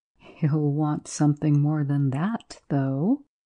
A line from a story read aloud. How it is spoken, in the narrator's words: Jones laughed quietly to himself